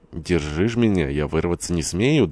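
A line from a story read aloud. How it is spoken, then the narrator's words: Laughing. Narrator (Russian): добавила, смеясь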